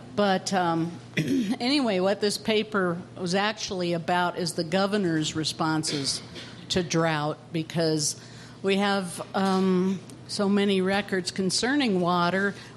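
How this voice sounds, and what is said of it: Slightly hoarse, croaky voice. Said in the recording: “I have a little bit of a frog in my throat.”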